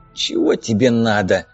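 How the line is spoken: Croaked. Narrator (Russian): прохрипел Зиг

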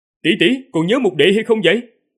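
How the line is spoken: Loud, raised voice. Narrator (Vietnamese): Tần Mục ngửa đầu cao giọng nói

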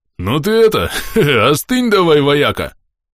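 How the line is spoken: Burly man chuckling. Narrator (Russian): хохотнул бугай

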